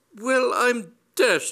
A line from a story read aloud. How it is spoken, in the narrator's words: cried